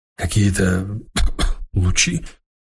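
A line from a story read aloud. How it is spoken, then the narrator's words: Hoarse. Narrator (Russian): охрипшим голосом спросил слушатель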